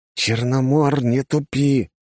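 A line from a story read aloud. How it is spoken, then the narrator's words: Hissed. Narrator (Russian): прошипел я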